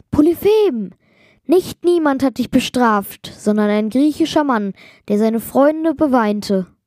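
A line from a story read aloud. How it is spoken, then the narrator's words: Called out. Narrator (German): rief Odysseus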